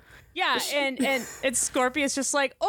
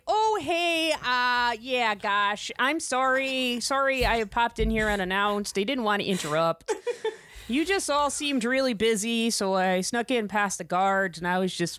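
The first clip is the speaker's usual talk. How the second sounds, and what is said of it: Exaggerated Midwestern accent. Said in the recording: “I'm really exaggerating this accent here ... This is like height Midwestern politeness”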